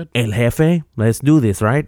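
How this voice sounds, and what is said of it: Poor put-on Mexican accent. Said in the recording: “I went into a Mexican accent. This is terrible, terrible stuff.”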